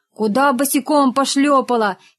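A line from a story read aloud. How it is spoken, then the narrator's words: Shouting at her. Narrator (Russian): крикнул на нее Рогов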